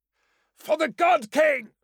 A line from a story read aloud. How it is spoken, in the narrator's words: Anaktos cried again, racked by pain